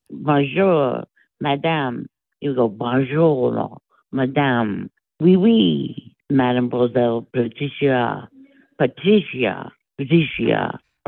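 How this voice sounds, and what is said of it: Drawn-out, exaggerated French accent. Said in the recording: “Does he speak with a French accent? ... Like, it was always elaborate. ... Like, it was always dragged out.”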